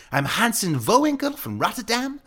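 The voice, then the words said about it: Ridiculous fake Dutch European accent. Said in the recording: “I pretended to be a European exchange student from Rotterdam ... I used like this ridiculous accent”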